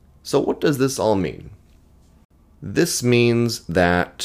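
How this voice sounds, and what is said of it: Usual voice. Nothing is said of it.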